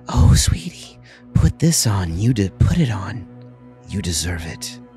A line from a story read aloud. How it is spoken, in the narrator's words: the woman, like, whispers